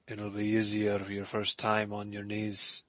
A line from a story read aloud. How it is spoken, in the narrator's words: he murmured